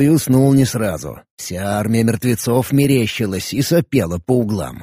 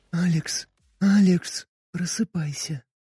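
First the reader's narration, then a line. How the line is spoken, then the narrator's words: Quiet insistent whisper. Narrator (Russian): тихий, но очень настойчивый шепот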